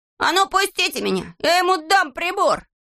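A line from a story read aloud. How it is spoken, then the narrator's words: Shouting while struggling. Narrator (Russian): Незнайка тоже вырывался из рук и кричал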